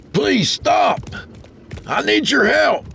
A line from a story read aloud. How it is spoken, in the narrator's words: hollered as he approached